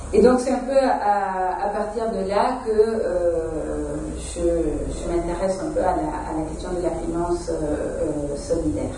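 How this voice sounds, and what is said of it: Latin American Spanish accent in French. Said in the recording (French): “vous l'entendez dans mon accent, je ne suis pas française. Je viens de l'Amérique latine, de l'Uruguay”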